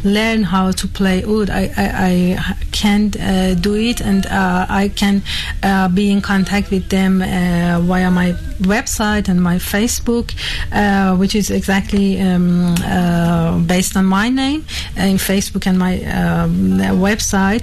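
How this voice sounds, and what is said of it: Non-native English accent. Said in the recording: “accept my apology about my accent and my English ... It's a beautiful accent.”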